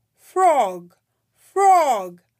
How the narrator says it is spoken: cried Toad

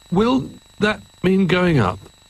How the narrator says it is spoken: asked Jolly nervously

